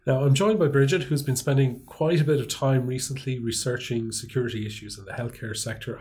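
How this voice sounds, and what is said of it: Congested, stuffy voice. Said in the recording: “as you can probably tell from my voice, ... I'm suffering from a heavy cold”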